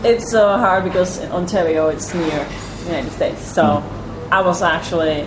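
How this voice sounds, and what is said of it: American-sounding English accent. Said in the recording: “your accent goes beyond... the Atlantic Ocean. I can't tell exactly where this is from, but it's more American English to me than British English.”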